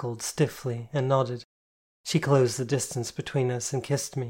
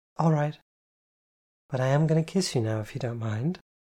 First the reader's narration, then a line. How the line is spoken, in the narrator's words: she asked sweetly